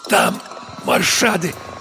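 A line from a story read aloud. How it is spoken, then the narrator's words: Wheezing, heavily collapsing. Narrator (Russian): прохрипела она, тяжело опускаясь на пол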